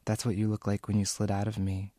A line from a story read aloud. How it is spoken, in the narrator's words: whispered